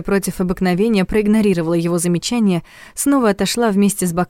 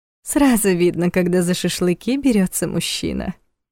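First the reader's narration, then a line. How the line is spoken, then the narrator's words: Purring. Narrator (Russian): промурлыкала она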